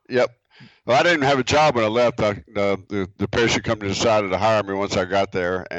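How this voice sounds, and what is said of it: Rural American country accent. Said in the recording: “the epitome of a country boy ... that accent of yours was a shitload thicker back then”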